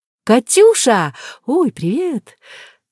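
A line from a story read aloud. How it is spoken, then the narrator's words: Joyful chirping. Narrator (Russian): Радостно защебетав, Алиска уже тише добавила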